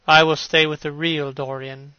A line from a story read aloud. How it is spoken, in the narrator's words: he said sadly